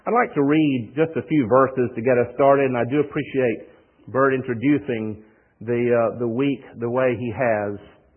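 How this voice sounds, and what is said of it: Southern US accent. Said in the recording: “the way they pronounce floor is flow ... Door is dough ... you'll get accustomed to my accent ... some things that we say in the South”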